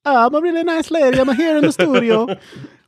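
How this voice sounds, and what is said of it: Italian-accented mom character voice. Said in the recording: “Why am I doing the Italian and kiss hands when I do this voice?”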